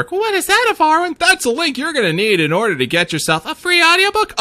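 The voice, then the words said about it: Strong New York accent. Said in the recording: “my ridiculous New York accent”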